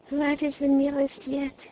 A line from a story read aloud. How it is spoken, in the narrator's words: she murmured